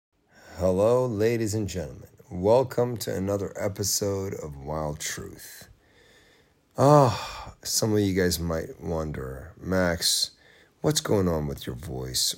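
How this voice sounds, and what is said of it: Raspy, tired, worn-out voice. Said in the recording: “Why do you sound so sexy, raspy? You sound different. ... this is the sound of a man who's tired, who's been talking a lot, lost 20% of his voice”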